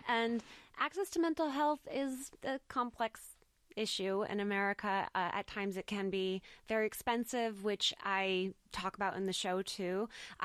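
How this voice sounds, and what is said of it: American accent. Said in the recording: “I'm American. I don't know if you can tell from my accent.”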